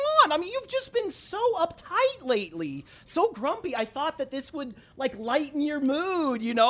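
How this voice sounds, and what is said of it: Usual voice. Nothing is said of it.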